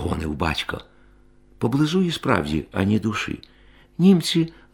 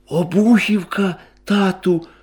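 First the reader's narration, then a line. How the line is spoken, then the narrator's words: Exclamation. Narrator (Ukrainian): вигукнув Андрій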